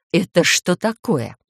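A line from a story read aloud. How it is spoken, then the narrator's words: Furious hiss. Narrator (Russian): прошипела с такой яростью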